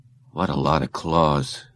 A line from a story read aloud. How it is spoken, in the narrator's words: Scott murmured